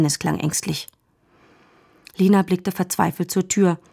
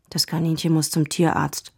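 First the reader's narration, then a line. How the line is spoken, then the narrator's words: Quiet. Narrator (German): sagte Dennis leise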